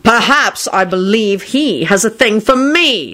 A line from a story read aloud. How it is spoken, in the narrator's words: Shacklebolt bellowed